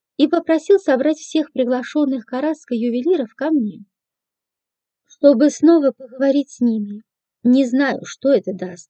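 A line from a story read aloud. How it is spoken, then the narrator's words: Heavy sigh. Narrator (Russian): тяжело вздохнул комиссар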